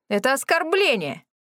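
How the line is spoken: Angry yelling. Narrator (Russian): заорал

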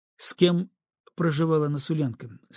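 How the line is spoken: Plain. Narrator (Russian): спросил Антон

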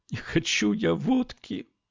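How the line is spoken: Girl sobbing. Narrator (Russian): всхлипнула девушка

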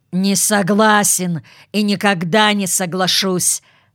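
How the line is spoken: Barked. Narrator (Russian): рявкнул он, выслушав

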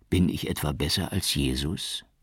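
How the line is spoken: Gentle question. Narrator (German): fragte er sanft

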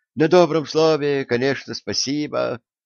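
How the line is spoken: Sighing. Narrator (Russian): вздохнул толстяк

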